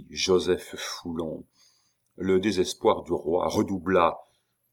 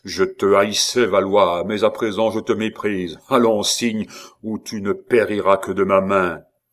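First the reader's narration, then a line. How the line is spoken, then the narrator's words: Exclaimed. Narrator (French): s'écria Gorenflot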